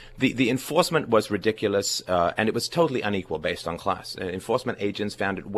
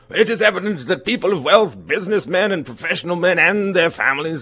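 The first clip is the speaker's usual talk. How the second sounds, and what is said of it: Posh 1920s voice, slightly English. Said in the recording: “I'm going to have to do my hoity-toity 20s voice here ... there's a bit of an English accent in there”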